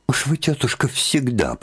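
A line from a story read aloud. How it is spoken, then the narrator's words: Annoyed mumble. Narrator (Russian): пробормотала с досадой Марья Дмитриевна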